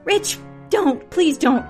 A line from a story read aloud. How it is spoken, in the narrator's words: Casey cried